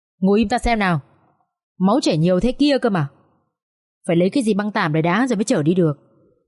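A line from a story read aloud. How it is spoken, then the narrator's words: Sharp snap. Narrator (Vietnamese): Bác xe ôm cũng gắt lên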